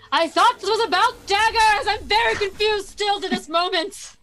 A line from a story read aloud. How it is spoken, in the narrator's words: yelling